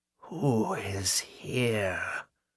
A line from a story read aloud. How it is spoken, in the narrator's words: Agatha whispered, and her tone might have withered grass